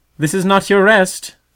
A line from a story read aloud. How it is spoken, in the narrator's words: sang the mother in a loud, clear voice outside